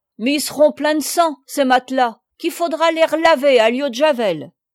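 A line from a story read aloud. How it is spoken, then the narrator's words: Woman shouting. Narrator (French): La femme cria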